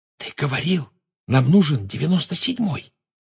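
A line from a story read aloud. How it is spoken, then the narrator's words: Whispered. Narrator (Russian): прошептала Гермиона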